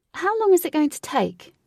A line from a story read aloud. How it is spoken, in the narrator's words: Katie shouted to the Queen, who was many steps in front